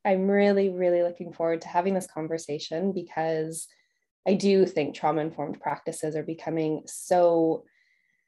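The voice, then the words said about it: Mild Canadian accent. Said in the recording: “originally from Canada. So you can hear a little bit of an accent there”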